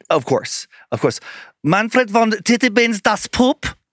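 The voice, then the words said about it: Put-on German accent. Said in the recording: “Can you say that with a German accent? ... is a very endearing German accent.”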